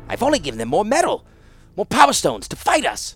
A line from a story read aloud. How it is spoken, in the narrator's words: Urza gasped out grimly